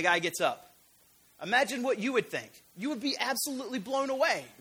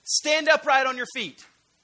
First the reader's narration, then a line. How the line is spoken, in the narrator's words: all of a sudden in a loud voice he says